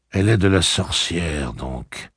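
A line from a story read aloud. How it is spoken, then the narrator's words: Dreamy tone. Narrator (French): fit Roland d'un ton rêveur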